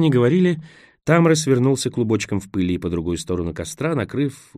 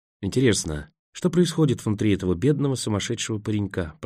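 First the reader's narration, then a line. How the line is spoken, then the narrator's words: Whisper. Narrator (Russian): прошептал Роэн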